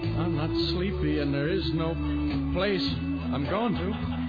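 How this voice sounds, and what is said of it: Sings with an Irish accent. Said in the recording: “You got like some Irish ... accent going on”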